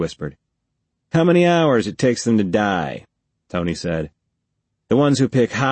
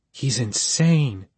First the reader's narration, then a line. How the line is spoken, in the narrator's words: Marilyn whispered